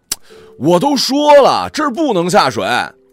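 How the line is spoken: Shouting again. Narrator (Chinese): 我又喊了一遍

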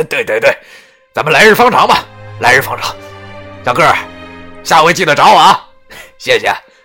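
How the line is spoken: Smiling, cheerful. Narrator (Chinese): 那司机依旧笑着对我说

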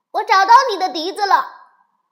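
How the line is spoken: Little rabbit shouting. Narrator (Chinese): 小兔子喊道

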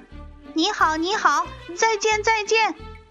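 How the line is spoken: Teasing bird call from above. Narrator (Chinese): 八哥小姐却很轻松地飞起来，在天空朝他叫

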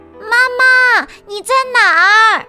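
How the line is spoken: Loud calling. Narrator (Chinese): 大声喊道

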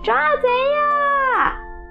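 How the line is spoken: Desperate shouting. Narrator (Chinese): 马小跳拼命地叫

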